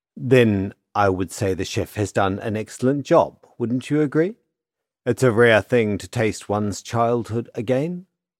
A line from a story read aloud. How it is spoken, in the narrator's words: the woman said